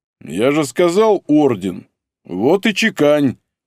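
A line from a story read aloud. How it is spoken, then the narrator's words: Booming drone. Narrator (Russian): прогудел Стас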